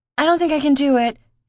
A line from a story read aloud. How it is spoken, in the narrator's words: she yelled